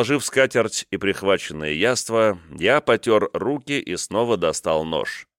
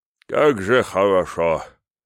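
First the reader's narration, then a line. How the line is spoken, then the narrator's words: Deep sigh. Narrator (Russian): Я глубоко вздохнул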